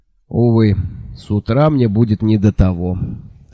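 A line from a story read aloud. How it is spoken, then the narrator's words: Melancholy sigh. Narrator (Russian): тоскливо вздохнул Джуфин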